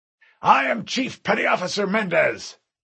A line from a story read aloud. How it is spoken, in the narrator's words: the uniformed man next to John shouted